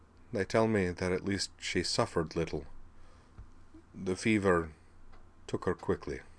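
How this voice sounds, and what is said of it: Subdued, quiet voice. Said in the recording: “in a subdued voice”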